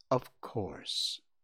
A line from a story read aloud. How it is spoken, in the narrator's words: answered Bambi's mother gently